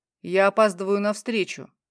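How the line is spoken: Cold clipped words. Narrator (Russian): холодно чеканит этот самый

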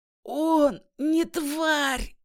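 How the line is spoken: Hoarse young man. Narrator (Russian): хрипло сказал юноша

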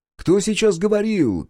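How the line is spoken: Shout. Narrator (Russian): крикнул Эндрю

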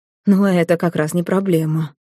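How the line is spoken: Gloomy reply. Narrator (Russian): мрачно отозвался архивампир

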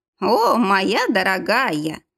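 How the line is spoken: Pleased laughing. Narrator (Russian): рассмеялась довольная Вольф

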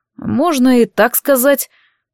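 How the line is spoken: Muttering. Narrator (Russian): пробормотал он

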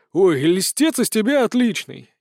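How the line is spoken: Displeased grumbling. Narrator (Russian): недовольно пробурчал Толик

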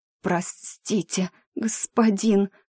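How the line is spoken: Strained, forced out. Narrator (Russian): с трудом выдавила я

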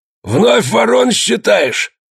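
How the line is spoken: Hoarse bark near ear. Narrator (Russian): Гаркнул опять над его ухом сиплый голос

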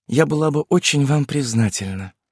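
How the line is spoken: Tired, smiling woman. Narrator (Russian): ответила трактирщику Элла Мария, устало улыбнувшись

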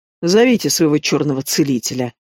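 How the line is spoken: Grumbled. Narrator (Russian): пробурчала Лавна

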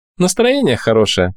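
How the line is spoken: Laughing, stout woman. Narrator (Russian): рассмеялась толстуха

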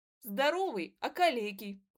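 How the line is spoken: Spoken with laughter. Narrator (Russian): выговорила Наташка и опять засмеялась

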